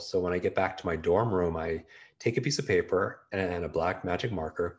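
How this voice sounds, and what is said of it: Hoarse voice. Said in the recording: “I'm a little bit hoarse right now just because I've been on interviews all day”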